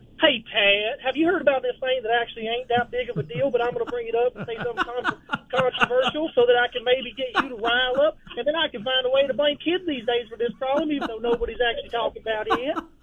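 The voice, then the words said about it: Impression of a rival caller. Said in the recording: “I think I got a pretty good impression of him”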